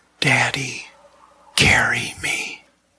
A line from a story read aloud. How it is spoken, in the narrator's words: the muffled sound of their son's voice coming from beneath the bandages, he whispered